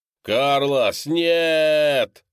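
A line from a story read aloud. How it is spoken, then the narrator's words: Desperate scream. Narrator (Russian): закричал Декс в отчаянии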